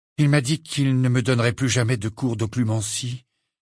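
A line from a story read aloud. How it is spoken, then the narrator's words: Indifferent reply. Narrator (French): répondit Harry d'un ton indifférent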